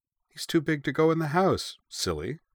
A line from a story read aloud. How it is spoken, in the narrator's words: Uwe replied cheerfully